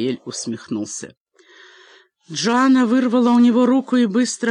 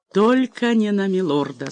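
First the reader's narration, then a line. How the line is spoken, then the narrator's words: Plain. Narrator (Russian): сказал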